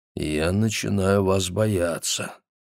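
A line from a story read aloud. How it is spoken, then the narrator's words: Embarrassed mumble. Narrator (Russian): Спейд покраснел, потупился и пробормотал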